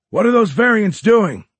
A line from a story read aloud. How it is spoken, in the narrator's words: yelled a crew chief